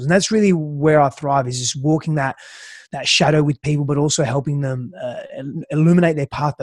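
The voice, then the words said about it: Hard-to-place accent. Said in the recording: “Not everyone will be able to place that accent.”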